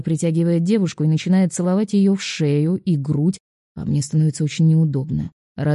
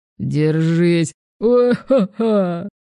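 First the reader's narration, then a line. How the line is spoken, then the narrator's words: Laughing. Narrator (Russian): Парочка все смеялась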